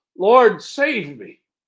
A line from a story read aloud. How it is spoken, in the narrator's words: he was afraid and began to sink, cried out